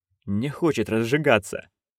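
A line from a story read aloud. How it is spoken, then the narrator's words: Muttered. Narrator (Russian): пробормотал Шут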